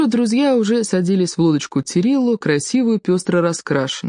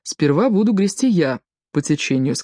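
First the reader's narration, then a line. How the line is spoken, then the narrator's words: Plain. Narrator (Russian): сказал Тирилло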